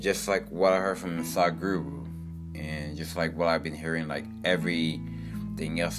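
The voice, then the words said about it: Deeper morning voice. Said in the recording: “my voice just got so deeper ... my voice, like, gets deeper when I wake up in the morning”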